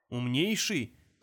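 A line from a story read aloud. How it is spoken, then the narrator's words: Gruff snort, bear. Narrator (Russian): хмыкнул медведь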